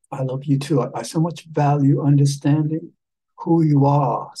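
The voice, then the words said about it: Put-on British accent. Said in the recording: “I'm gonna start talking with a British accent”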